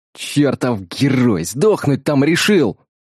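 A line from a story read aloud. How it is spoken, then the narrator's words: Growling while running upstairs. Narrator (Russian): рычал боец, перепрыгивая через ступеньки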